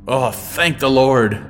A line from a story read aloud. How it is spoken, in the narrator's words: Granard exclaimed